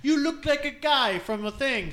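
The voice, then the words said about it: Poor put-on Russian accent. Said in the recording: “my Russian accent ... that was terrible ... Worst accent”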